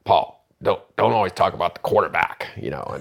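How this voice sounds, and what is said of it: Imitates another person's voice, poorly. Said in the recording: “that's probably a bad John Madden impression”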